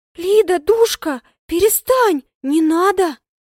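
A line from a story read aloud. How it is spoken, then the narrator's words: Frightened whisper. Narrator (Russian): Испуганно шепчет Черкешенко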